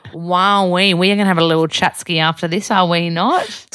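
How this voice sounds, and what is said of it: Broad Australian accent. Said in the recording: “you're the most bogan Aussie I've ever dated ... what makes an Australian accent so Australian is actually a lazy jaw, lazy tongue”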